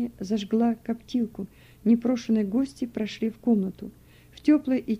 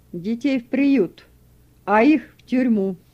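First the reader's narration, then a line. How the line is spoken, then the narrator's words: Children screaming in dread. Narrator (Russian): Дети закричали, предчувствуя страшную беду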